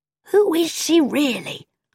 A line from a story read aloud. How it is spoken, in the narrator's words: asked Badger in a loud whisper